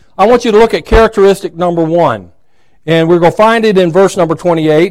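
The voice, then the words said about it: Hoarse, throaty voice. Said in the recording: “I've got a little frog in my throat.”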